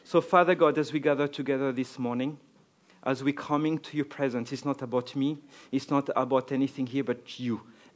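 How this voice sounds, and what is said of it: French Arabic accent, slight East Cork. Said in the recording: “the French Arabic accent? ... And a little bit of East Cork now as well”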